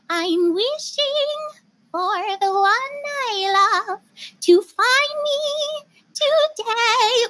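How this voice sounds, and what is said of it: Snow White character voice. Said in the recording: “I do a Snow White impression.”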